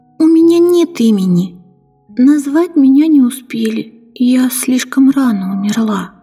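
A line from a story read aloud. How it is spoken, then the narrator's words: Plain. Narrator (Russian): ответила я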